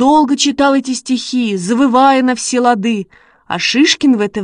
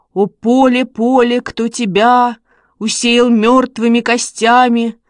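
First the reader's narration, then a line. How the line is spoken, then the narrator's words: Sepulchral voice. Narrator (Russian): Ваня заговорил за могильным голосом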